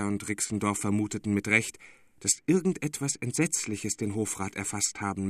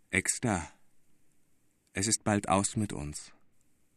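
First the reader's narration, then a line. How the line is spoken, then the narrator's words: Dull, hollow voice. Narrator (German): fing der Hofrat mit dumpfer Stimme an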